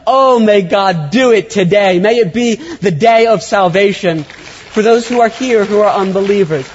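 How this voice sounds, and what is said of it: Loud, excited yelling. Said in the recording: “I'm yelling, I'm excited.”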